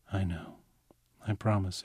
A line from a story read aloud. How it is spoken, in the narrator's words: whispered